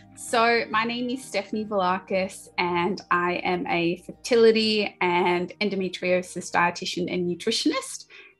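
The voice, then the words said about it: Australian accent. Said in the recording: “you can probably tell from my accent, I'm from Australia, Sydney”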